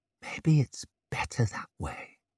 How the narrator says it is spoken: she whispered, breath hot on his face and smelling like spirits

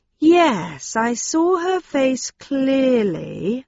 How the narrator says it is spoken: I said slowly

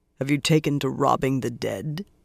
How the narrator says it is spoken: Lan asked in that irritatingly cool voice

